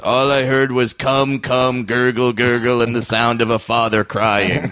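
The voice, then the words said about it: Imitates another person's voice. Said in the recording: “I'm going to do a horrible Dave Attell impression”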